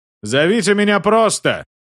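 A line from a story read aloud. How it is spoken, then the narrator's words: Shouted. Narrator (Russian): крикнул он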